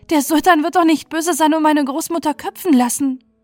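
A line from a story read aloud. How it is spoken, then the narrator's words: Wailing. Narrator (German): jammerte sie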